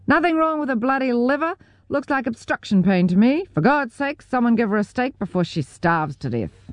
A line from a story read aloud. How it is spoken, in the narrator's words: Elaine's boyfriend shouted